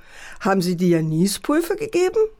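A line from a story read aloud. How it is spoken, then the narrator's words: Father mocking. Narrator (German): spottete der Vater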